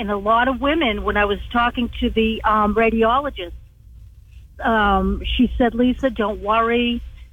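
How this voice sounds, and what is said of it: Strong southern accent. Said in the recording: “southern accent ... It's very, very strong.”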